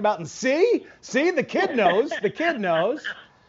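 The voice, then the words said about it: Imitates another person's voice. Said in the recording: “that's a great impression.”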